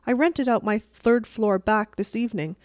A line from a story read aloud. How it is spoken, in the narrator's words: said Mrs